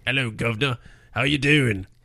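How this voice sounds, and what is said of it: Put-on British accent. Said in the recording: “do their best British accent”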